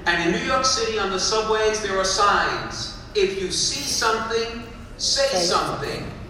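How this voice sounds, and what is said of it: Brooklyn New York accent. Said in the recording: “come from New York City, from Brooklyn, you can tell from the accent”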